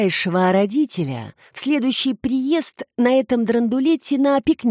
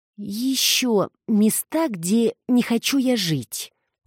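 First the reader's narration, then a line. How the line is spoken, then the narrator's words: Drawn-out drawl. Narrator (Russian): протянула Эмма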